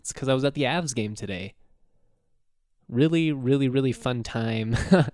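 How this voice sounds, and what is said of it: Hoarse voice. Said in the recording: “My voice sounds a little hoarse.”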